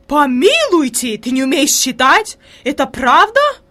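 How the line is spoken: Horrified exclamation. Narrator (Russian): воскликнула фрейлин в ужасе

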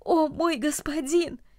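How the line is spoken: Exclaimed. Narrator (Russian): воскликнул

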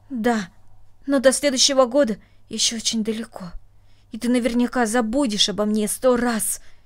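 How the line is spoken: Angry, reproachful. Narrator (Russian): сердито сказала она, как будто упрекая своего друга

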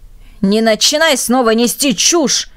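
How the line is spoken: Angry shout. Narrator (Russian): крикнул отец

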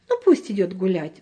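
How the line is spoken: Sighing. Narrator (Russian): вздохнула мама

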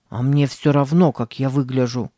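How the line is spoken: Grumbling mutter. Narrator (Russian): пробурчал Сэм

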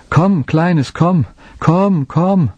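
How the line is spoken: Long calling. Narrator (German): rief lange

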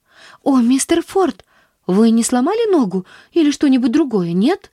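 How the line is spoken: Anxious question. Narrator (Russian): взволнованно спросила она

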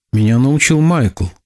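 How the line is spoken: Timid answer. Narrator (Russian): робко ответил Кеби

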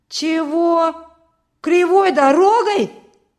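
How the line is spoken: Loud indignation. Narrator (Russian): громко возмутился Петька

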